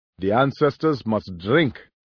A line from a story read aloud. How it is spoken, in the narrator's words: Roy said cheerfully